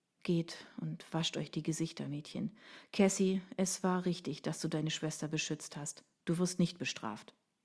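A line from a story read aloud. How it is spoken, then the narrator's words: Quiet, choked. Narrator (German): Er schluckte und sagte leise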